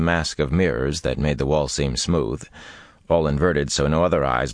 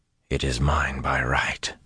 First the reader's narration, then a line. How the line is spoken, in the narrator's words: he muttered each time